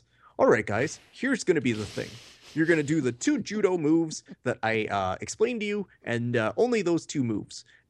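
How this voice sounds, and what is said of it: Imitation of a judo coach's voice. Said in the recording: “do the John voice”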